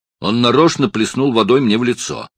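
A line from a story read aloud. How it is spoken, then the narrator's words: Angry. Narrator (Russian): сердито сказал Оттер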